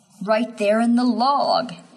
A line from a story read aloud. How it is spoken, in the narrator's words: he whimpers